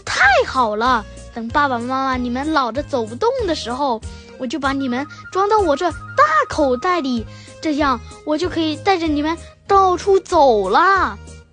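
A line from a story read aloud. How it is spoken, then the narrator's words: Happy, loud young voice. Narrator (Chinese): 小袋鼠 很高兴，大声说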